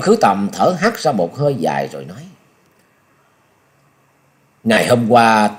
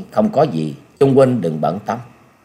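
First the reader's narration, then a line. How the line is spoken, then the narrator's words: Smiling, reassuring. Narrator (Vietnamese): Nhậm Sơn Bạch mỉm cười nói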